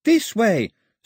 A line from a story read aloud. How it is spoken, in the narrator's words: screamed Daphne, right in his ear